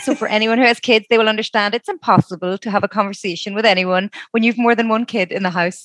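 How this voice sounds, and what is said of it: Irish accent. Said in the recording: “we love Irish accents. I'm a sucker for an accent”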